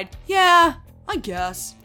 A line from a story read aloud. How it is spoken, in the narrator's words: Thorin sighed